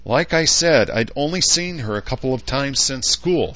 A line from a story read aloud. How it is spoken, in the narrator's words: snapped